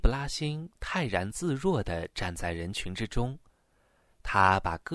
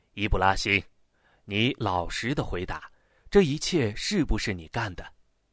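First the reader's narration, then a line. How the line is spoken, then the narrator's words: Stern elder questioning. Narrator (Chinese): 长者厉声的问道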